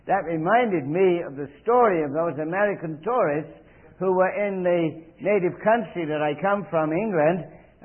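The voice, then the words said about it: English accent, speaking quickly. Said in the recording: “I hope I don't speak too quickly in my English accent... I was going a little fast for them in my English accent.”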